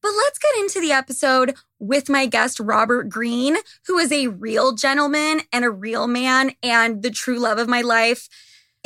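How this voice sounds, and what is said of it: Hoarse, fading voice. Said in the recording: “<clears throat> oh my God, I'm like losing my voice.”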